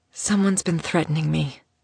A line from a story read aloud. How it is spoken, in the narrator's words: she whispered against Theodore's sweet-tasting skin